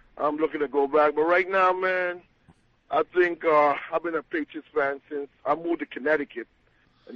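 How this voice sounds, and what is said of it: Virgin Islands island accent. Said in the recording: “You hear my island accent. I'm from the Virgin Islands.”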